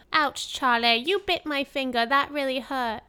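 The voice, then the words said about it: Put-on accent, sounds like little kid. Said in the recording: “Your accent is so much better than mine. ... You just sound like a little kid”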